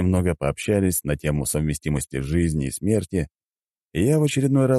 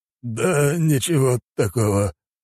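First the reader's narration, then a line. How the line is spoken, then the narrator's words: Old man's hoarse wheeze. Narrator (Russian): прохрипел старик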